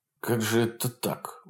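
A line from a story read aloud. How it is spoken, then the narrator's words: Grieved mutter. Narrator (Russian): бормотал сокрушенно бородатый партизан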